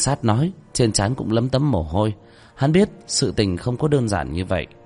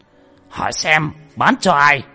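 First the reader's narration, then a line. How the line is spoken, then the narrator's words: Furious trembling shout. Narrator (Vietnamese): Cục trưởng phân cục giận đến phát run lên, hét lớn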